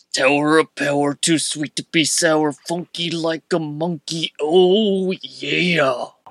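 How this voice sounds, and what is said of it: Wrestler Macho Man impression. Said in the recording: “I want to hear your best Macho Man impersonation. ... That's great. ... That was great.”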